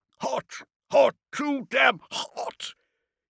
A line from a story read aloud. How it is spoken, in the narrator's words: bellowed